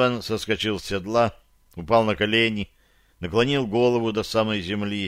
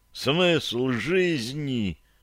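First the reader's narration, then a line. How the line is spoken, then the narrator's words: Choking sobs. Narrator (Russian): рыдал он, задыхаясь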